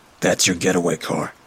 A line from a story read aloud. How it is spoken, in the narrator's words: one of the men informed me from the back